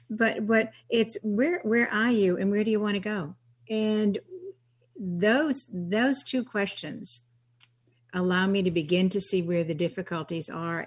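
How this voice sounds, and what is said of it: Slight New England accent. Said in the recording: “has a little bit of a New England accent ... Just a wee bit”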